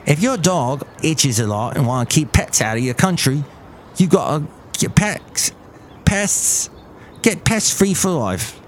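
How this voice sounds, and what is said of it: Attempted Australian accent. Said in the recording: “now I will say something with an Australian accent ... I can't do it today”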